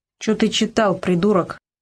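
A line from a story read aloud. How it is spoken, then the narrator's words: Angry reply. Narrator (Russian): зло ответил ему Карамор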